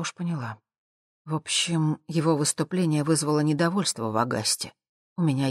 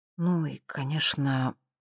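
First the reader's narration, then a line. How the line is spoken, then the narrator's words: Quiet addition. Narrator (Russian): добавила она тихо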